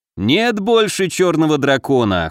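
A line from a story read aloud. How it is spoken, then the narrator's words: Dismissive snort. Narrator (Russian): хмыкнул Горыныч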